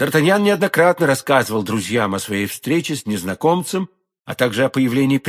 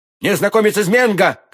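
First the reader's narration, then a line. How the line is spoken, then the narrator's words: Shouted back. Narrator (Russian): крикнул в ответ Д'Артаньян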